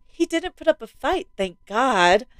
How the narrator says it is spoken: she sighed with relief

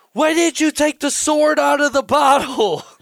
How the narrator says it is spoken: Lord Tequila screams in pain

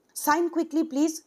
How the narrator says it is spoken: said the peon impatiently

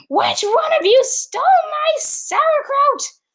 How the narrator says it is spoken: He screamed

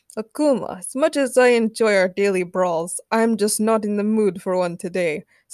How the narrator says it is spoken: sighed Colossus

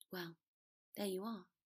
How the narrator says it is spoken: Potter said quietly

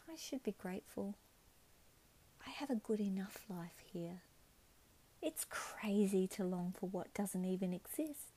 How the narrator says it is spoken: She'd sigh and say

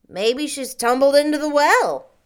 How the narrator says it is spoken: suggested Davy, cheerfully

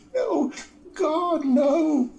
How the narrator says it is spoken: cried Flora

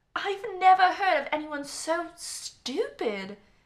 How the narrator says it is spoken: she exclaimed

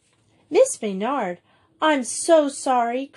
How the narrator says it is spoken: cried Juliet

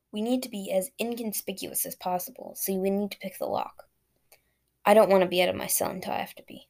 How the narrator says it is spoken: he said

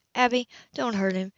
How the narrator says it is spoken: she pleaded

